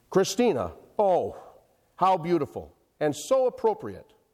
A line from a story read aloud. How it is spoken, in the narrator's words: said Mrs